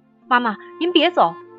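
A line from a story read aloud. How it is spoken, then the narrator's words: Loud cry. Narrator (Chinese): 我大声的叫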